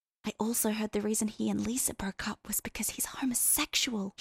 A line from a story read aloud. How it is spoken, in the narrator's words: she whispered it right in his ear